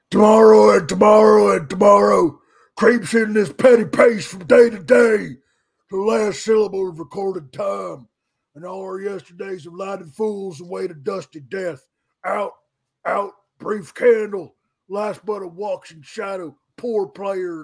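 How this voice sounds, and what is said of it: Imitates another person's voice. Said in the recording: “my Braun impression”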